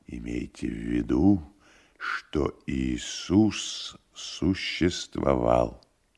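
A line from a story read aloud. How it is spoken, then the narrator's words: Whispering. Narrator (Russian): прошептал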